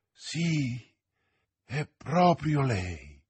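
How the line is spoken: Murmur. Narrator (Italian): mormorò Athos

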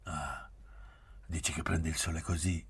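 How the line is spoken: Stammering. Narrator (Italian): balbettò

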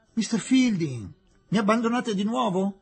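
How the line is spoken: Exclamation. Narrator (Italian): esclamò Aziz

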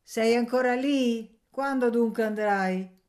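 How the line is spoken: Old woman shouting from afar. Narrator (Italian): gridò la vecchia dal cortile

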